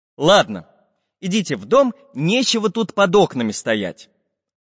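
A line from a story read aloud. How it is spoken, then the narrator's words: Stern. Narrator (Russian): Строго сказал волшебный художник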